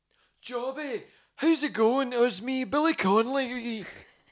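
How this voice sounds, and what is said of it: Imitates another person's voice. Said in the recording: “You do a good impression of him ... Billy Connolly impression”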